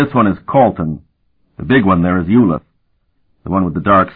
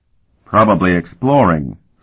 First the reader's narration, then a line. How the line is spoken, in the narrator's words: Sparhawk replied blandly